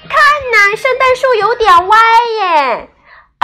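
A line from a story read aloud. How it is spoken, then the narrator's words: Children exclaiming. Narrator (Chinese): 孩子们立刻叫了起来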